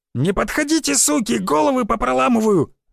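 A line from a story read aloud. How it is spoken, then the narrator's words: Shrill shriek. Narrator (Russian): взвизгнул он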